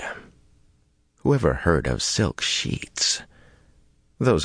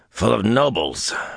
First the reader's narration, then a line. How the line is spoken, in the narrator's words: Vannin growled downstairs